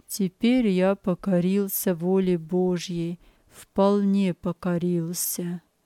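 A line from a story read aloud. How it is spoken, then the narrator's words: Weary. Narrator (Russian): устало продолжал он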